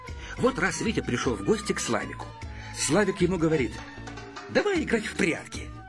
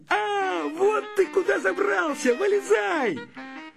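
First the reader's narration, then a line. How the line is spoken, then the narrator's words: Shouting. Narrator (Russian): Славик закричал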